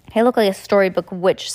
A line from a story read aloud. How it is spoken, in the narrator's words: said Heidi gloomily